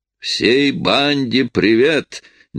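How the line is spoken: Sudden booming voice. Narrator (Russian): неожиданно прогремел голос со стороны

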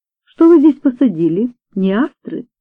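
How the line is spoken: Plain. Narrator (Russian): спросила мисс Вулстрад

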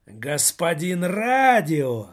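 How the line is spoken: Roar. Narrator (Russian): взревел Жора людоед

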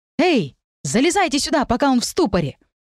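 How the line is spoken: Shout. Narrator (Russian): Евгений крикнул

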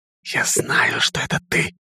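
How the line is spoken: Muffled whisper. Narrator (Russian): приглушенный шепот

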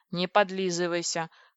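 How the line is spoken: Snorted. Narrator (Russian): фыркнул Компи

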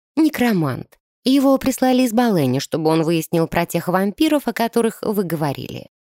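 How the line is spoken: Calm explanation. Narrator (Russian): спокойно разъяснила девушка

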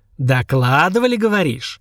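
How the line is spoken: Asked angrily. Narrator (Russian): зло спросил

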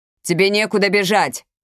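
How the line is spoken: Shouting into emptiness. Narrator (Russian): крикнул в пустоту Ордуньо

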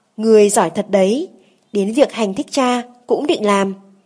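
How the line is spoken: Snorting angry shout. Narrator (Vietnamese): Hoàng thượng hừ giọng quát

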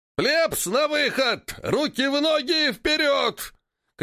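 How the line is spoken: Fat man shouting. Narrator (Russian): кричал толстяк

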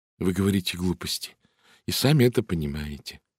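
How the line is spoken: Plain. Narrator (Russian): сказала миссис Хаббард

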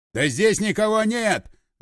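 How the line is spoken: Yelling. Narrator (Russian): заорал один из них

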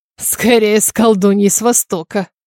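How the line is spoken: Purring. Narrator (Russian): промурлыкал Стивен

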